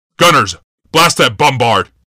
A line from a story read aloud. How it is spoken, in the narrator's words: Yawmoth shouted